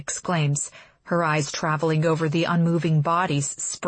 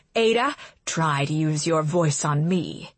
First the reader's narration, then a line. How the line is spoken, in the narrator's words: she hisses